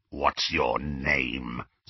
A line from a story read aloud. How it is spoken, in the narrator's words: snarled Greyback